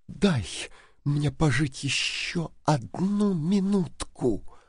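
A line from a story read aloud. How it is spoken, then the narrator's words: Whispered. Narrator (Russian): прошептала она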